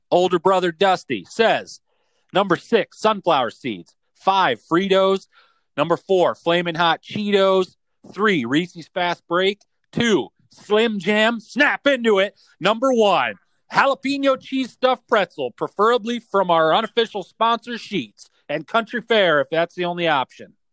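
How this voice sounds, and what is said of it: Rapid, breathless listing. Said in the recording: “I'm out of breath... Damn, boy. Yeah, you better slow down.”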